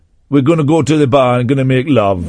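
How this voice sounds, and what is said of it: Put-on Jamaican accent. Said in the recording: “a white man doing a Jamaican accent”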